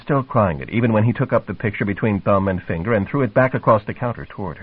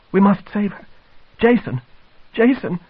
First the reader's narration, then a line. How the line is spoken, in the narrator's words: cried